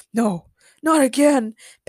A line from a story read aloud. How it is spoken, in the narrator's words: Patrick groaned